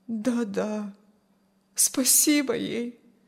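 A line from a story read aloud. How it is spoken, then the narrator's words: Sad agreement. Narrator (Russian): грустно согласилась Аня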